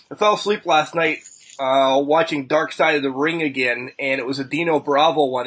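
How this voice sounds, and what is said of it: Raspy voice. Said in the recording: “sorry, I'm a little bit raspy”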